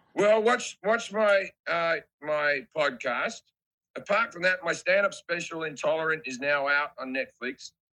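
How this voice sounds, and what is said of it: Australian accent. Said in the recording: “because of the accent, sometimes I'll do a show stone sober, and then afterwards a review will be like, he was drunk as fuck ... I'm just Australian ... my voice has a bit of damage in it from the past still”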